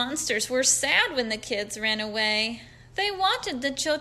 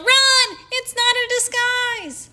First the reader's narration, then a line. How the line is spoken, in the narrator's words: the children yelled